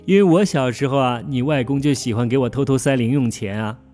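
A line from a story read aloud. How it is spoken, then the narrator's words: Hearty laugh. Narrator (Chinese): 妈妈哈哈一笑说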